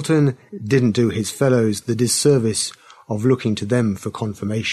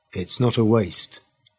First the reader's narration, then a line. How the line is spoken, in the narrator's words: he said gently